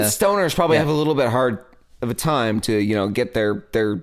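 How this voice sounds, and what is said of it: Usual voice. Nothing is said of it.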